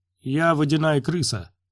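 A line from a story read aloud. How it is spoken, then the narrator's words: Cheerful. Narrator (Russian): бодро сказал Свенни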